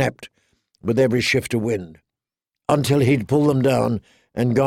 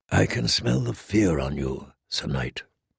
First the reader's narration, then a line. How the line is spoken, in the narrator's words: the Red Woman said softly